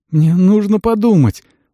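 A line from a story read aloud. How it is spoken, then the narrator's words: Silent pleading thought. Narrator (Russian): взмолился Керс мысленно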